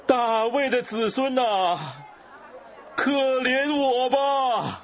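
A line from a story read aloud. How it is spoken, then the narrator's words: Ever louder crying out. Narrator (Chinese): 他却越发大声喊着说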